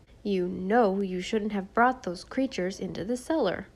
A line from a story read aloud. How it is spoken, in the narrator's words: said Susan sternly